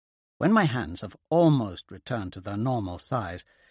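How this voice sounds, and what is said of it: Usual voice. Nothing is said of it.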